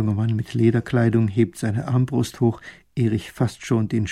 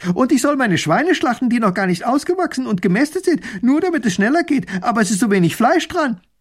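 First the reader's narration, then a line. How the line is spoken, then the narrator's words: Calling out. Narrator (German): Ein anderer ruft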